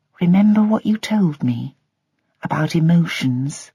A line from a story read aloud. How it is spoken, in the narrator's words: whispered Kate